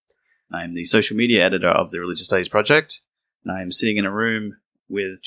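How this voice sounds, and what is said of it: Dulcet Australian accent. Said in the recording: “Why has he got such dulcet accent? ... I am from Sydney, Australia.”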